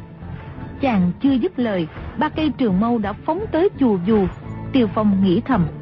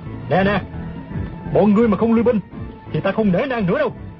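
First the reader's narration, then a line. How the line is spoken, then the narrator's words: Loud shout. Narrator (Vietnamese): Tiêu Phong lớn tiếng quát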